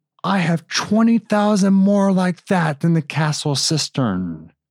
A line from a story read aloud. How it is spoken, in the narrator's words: shouting